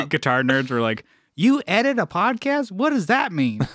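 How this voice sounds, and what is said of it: Weird hick accent. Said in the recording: “that was a really weird, like, hick accent for the English guys”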